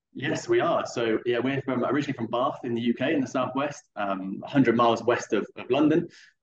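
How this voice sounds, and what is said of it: English accent. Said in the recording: “that's an English accent we are detecting”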